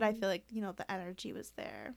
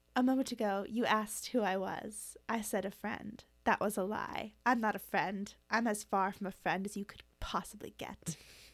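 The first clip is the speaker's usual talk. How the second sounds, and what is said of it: Attempted put-on accent. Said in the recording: “I didn't nail that you know, accent,”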